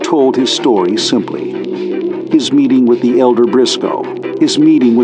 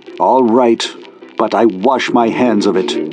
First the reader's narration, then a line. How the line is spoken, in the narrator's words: Raynor 1 said angrily